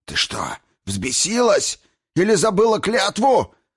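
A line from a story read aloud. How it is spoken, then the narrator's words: Hateful wheeze. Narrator (Russian): прохрипел маг с ненавистью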